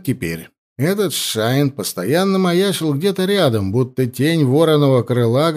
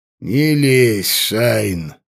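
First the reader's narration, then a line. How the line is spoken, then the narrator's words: Lazy, offhand. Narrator (Russian): лениво бросил воевода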